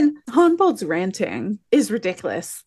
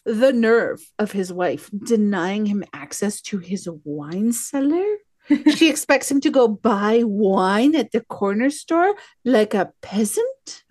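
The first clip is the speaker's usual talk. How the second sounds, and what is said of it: Posh snobbish put-on accent. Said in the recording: “That was my posh asshole accent ... It was your cat voice.”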